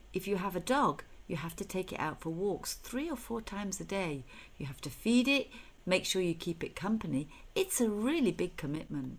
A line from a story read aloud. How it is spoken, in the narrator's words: Dad smiles kindly and adds